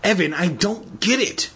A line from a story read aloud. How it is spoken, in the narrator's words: Andy cried